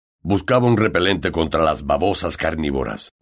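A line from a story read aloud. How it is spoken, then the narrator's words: Growled. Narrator (Spanish): gruñó Hagrid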